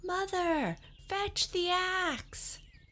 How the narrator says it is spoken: Jack yelled as he reached the ground

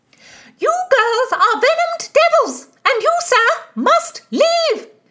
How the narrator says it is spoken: shrieked Mistress Aglinesby, the mother of the maids

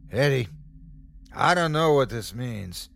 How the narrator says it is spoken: he yelled to me

